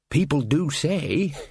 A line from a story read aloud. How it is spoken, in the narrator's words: said Jason, lowering his voice